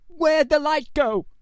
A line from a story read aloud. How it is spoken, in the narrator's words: George cried, panic rising